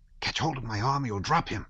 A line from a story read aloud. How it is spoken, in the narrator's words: one of the servants say in a frightened whisper